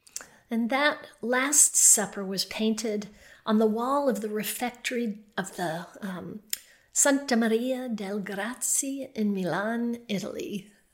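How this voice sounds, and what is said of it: Put-on proper accent for foreign names. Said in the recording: “I did that with my most proper accent, I hope.”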